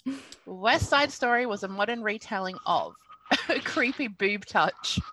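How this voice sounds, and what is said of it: Speaking in a put-on accent. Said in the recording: “Just hearing that with the accent was good.”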